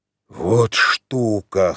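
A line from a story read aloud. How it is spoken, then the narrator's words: Wheezing rasp. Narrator (Russian): хрипел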